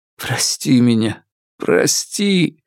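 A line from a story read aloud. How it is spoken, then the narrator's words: Losing control, sobbing. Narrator (Russian): Фанму утратил контроль над собой и всхлипнул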